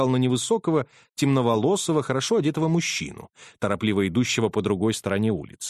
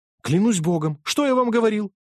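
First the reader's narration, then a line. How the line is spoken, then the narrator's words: Clerk exclaiming. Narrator (Russian): воскликнул клерк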